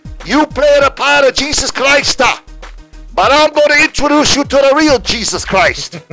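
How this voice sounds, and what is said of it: Put-on Italian accent. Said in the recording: “he was an Italian man. So I got to do this in an Italian accent.”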